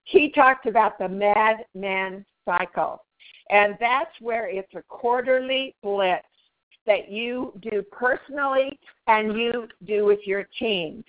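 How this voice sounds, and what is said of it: Hoarse, strained voice. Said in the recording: “I'm losing my voice today.”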